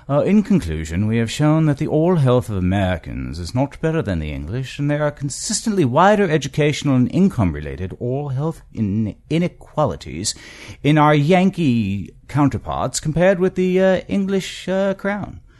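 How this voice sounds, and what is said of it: Put-on British accent. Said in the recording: “in my best British accent”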